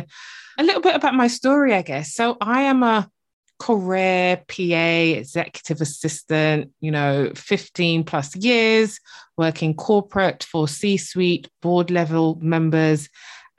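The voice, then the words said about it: Speaks with a noticeable accent. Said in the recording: “As you can probably tell from the accent, I am based in the UK, but originally born in the beautiful Barbados over in the Caribbean.”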